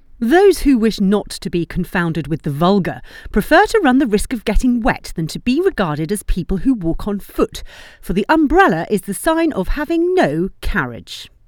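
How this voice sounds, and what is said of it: British accent. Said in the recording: “read in a British accent”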